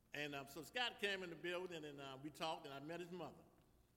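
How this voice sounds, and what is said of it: New Orleans accent. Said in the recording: “I'm from New Orleans. Y'all know my accent a little different.”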